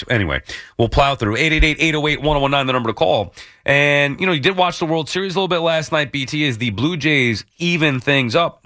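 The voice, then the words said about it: Hoarse, fading voice from cold. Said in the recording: “I've been battling this damn cold all week... Now I can't talk. I'm losing my voice.”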